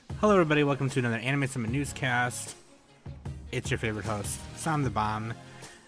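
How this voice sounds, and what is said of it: Sick, rough voice. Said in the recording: “my voice is going to sound kind of poopy because I'm sick ... if you hear me, like, clearing my throat”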